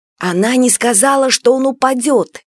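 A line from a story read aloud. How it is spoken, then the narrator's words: Hissed reply. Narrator (Russian): шипели в ответ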